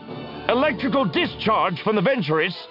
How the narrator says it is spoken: Bicleon snapped

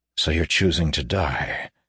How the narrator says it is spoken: he said bitterly

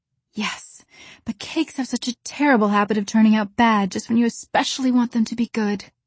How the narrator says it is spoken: sighed Anne

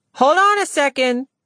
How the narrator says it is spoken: Lena called out

